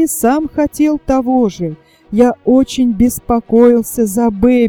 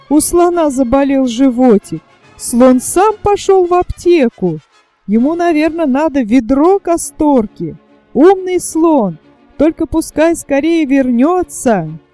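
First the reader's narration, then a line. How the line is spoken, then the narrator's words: Children laughing, chanting cheerfully. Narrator (Russian): Дети хохотали и весело повторяли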